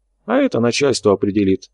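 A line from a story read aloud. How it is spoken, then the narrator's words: Calm. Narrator (Russian): спокойно ответил Карабаев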